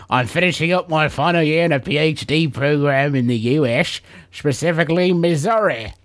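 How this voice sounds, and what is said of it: Put-on English accent. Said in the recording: “Maybe based on the accent... Now switch to Missouri.”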